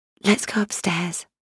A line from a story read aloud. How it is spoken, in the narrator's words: I whispered in his ear